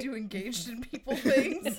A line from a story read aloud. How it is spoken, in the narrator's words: They laughed